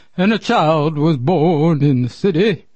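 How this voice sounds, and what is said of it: Deliberately bad singing impression. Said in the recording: “That's my Elvis, my really bad Elvis impression.”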